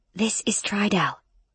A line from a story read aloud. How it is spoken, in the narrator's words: Emmy whispered to me